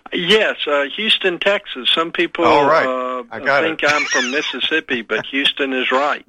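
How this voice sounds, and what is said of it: Southern Texan accent. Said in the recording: “your dialect is obviously south of the Mason-Dixon, and I'm going to guess Texas ... it's not a Mississippi accent ... a Texan”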